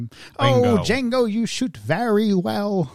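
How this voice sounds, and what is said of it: Imitates a film character's voice. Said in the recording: “my impersonation of him ... Colonel Hans Landa”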